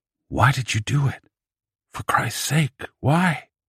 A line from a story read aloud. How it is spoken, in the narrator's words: said quietly